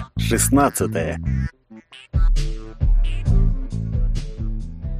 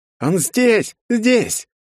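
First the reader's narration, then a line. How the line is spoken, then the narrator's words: Joyful shout from fat man. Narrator (Russian): радостно закричал толстяк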